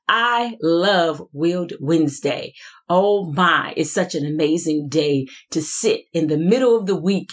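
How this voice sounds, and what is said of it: Excited, enthusiastic delivery. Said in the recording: “can you hear the excitement in my voice?”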